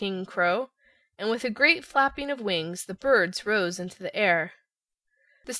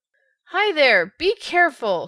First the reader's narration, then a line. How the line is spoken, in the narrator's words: shouted the Scarecrow to the crows